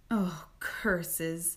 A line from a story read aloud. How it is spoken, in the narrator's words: she muttered to herself